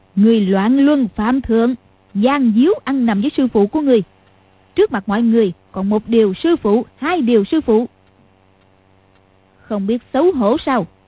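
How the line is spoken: Smiling. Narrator (Vietnamese): Lý Mạc Sầu mỉm cười nói

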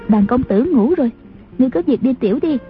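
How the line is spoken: Low voice, laughing. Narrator (Vietnamese): A Châu hạ giọng cười nói

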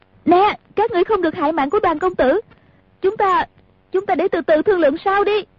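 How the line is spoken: Woman shouting loudly. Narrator (Vietnamese): Nàng lớn tiếng la lên

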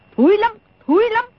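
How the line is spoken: Angry interruption. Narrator (Vietnamese): Đồng Mổ tức giận ngắt lời

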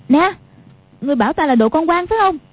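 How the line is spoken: Angry shout. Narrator (Vietnamese): Quách Phù quát lên

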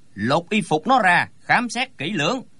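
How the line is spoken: Frowning harsh order. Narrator (Vietnamese): Lão chau mày quát lên

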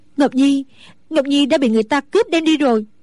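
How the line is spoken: Trembling. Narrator (Vietnamese): Mẫn Nhu run rẩy nói

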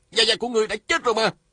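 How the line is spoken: Startled shout. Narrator (Vietnamese): Lê Cường nhảy bật dậy la lên

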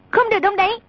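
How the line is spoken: Sharp shout. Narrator (Vietnamese): A Tử quát

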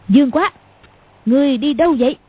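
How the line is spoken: Sudden loud shout. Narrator (Vietnamese): Cầu Thiên Xích đột nhiên quát to

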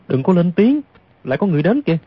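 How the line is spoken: Soft, sudden whisper. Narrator (Vietnamese): Bỗng Du Thản Chi khẽ nói

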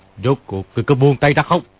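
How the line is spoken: Shouting. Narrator (Vietnamese): quát lên

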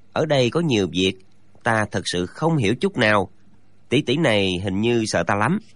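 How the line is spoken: Muttered from behind. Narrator (Vietnamese): chàng lẩm bẩm sau lưng

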